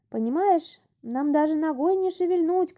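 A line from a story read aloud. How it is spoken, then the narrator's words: Shouting. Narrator (Russian): кричала ей Топа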